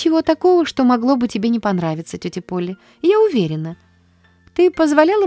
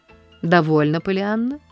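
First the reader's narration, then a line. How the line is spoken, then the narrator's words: Cold interruption. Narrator (Russian): холодно прервала мисс Полли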